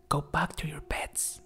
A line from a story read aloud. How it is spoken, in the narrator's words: whispered to her friends